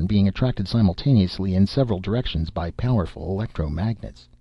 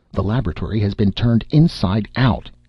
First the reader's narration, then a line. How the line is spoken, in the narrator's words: he shouted